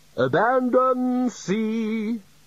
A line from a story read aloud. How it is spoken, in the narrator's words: shouted the bursar cheerfully